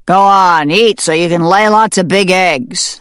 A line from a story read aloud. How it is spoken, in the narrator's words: the farmer bellowed